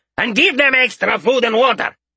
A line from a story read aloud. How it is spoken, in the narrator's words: he shouted